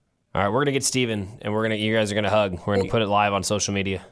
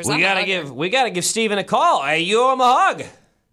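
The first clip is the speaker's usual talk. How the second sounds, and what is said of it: Yelling, loud voice. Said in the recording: “Why am I yelling?”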